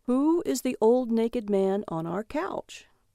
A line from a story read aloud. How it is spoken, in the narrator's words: He said calmly